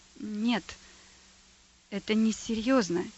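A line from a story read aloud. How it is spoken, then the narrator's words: Quiet whisper. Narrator (Russian): тихо прошептал дьякон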